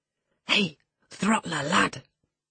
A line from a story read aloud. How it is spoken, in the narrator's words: whispered the little wretch